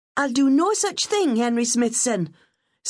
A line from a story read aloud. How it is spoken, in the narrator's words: snapped